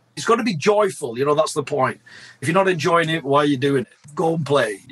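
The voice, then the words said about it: British Lancashire accent. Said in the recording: “you have a British accent ... I was born in Blackburn, Lancashire, hence the curse of my accent”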